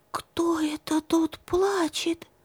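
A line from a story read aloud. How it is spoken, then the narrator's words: Whispered question. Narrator (Russian): Настенька ее спрашивает шепотом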